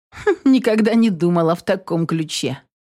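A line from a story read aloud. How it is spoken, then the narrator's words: Reply with a snort. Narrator (Russian): хмыкнув, ответила Инесс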